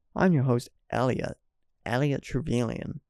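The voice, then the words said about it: Attempted American accent. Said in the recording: “I can't say Elliot Trevelyan in an American accent.”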